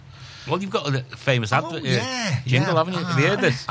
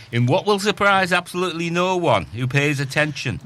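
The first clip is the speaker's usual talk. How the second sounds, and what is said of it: Put-on Yorkshire accent. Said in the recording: “speaking in Yorkshire accent”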